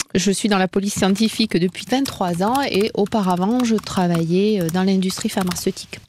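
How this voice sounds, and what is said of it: Southern French accent. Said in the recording (French): “cet accent du Sud”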